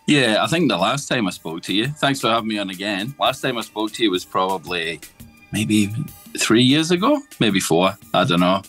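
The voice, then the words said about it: Scottish accent. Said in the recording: “as you can tell from the accent, Scotland, originally.”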